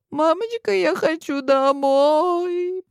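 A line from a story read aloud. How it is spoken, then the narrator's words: Inner moan. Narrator (Russian): простонала про себя Вилли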